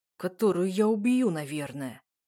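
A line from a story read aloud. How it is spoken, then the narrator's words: Through gritted teeth. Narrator (Russian): отвечает сквозь зубы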